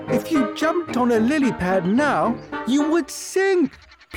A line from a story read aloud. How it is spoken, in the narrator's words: pleaded the monkey